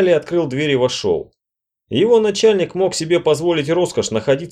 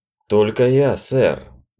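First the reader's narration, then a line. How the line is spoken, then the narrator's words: Dull, muffled reply. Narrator (Russian): глухо ответил посетитель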